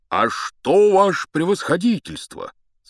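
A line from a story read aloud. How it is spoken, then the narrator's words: Joyful speech. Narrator (Russian): сказал он радостно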